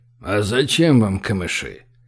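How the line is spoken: Big one's suspicious bass. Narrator (Russian): пробасил большой подозрительно

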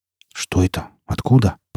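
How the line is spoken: Mutter. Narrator (Russian): пробормотал Винт

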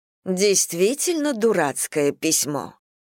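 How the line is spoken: Indignant. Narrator (Russian): миссис Бантинг произнесла это возмущенным тоном

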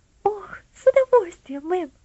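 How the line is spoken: Joyful exclamation, girl. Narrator (Russian): воскликнула девочка, и глаза ее радостно засверкали

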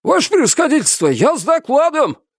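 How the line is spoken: Cossack shouting while dismounting. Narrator (Russian): прокричал, спрыгивая с коня, подлетевший наметом казак

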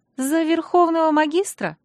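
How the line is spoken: Timid suggestion. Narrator (Russian): робко предположила Ангельена

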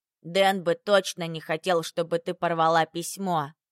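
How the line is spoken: Stern conclusion. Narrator (Russian): заключила Иринка, строго заглядывая мне в глаза

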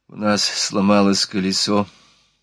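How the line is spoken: Mutter. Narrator (Russian): пробормотала она

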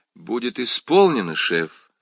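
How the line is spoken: Plain. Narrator (Russian): ответила она

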